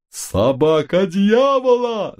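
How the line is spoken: Panicked yell. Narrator (Russian): заорал несчастный

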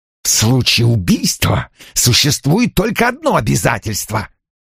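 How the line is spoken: Angry hiss. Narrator (Russian): злобно прошипел Бреслоу

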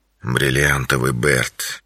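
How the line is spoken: Quiet. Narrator (Russian): тихо произнес он

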